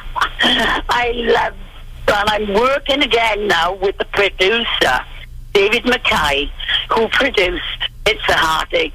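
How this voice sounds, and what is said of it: Beautiful accent. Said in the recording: “A beautiful accent”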